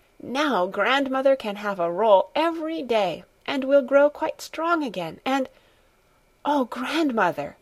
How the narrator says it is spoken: she suddenly exclaimed, with an increase of jubilation in her voice

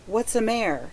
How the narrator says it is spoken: asked Laura anxiously

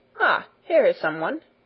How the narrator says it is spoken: exclaimed Herr Sesemann

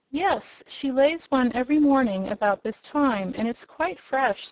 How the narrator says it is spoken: said the girl

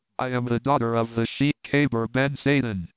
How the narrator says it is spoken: she answered

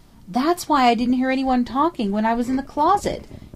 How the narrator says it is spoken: she cried, her voice almost hysterical in its vehemence

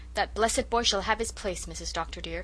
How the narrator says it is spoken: said Susan firmly

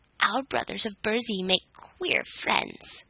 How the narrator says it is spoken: grumbled an ancient Nook, whose flowing beard was pure white

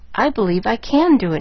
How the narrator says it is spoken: she chuckled

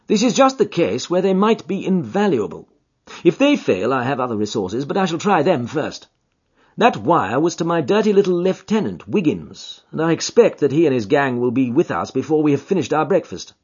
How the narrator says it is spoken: said I, laughing

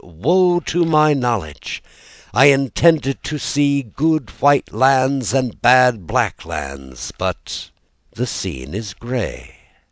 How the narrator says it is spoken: the prophet, a complacent fat man, arrived at the mountain top, he cried

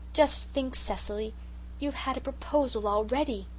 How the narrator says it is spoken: said Sarah Ray in an awestruck tone

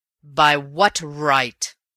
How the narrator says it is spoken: roared Raffles in a ringing voice

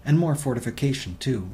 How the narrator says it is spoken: Ryanson snapped

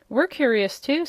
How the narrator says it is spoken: said Trot

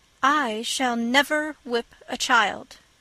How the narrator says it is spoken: she repeated firmly

